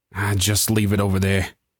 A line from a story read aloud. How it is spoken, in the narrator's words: he sighed